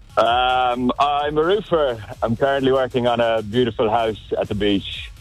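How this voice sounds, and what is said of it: Irish accent. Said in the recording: “You got yourself an accent, do you? ... a little bit. Irish. ... I don't understand a bloody word you're saying.”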